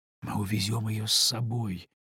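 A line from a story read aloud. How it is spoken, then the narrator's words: Whisper. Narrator (Russian): шепотом сказал Артур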